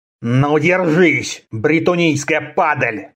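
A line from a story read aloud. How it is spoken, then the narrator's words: Barbarian hissing. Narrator (Russian): прошипел варвар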